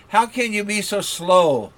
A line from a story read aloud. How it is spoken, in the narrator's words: cried